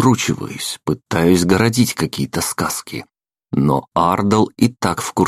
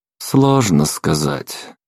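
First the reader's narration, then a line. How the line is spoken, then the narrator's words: Tired. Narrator (Russian): произнес устало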